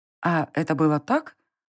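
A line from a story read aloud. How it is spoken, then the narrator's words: Uncertain clarifying question. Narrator (Russian): уточнила я неуверенно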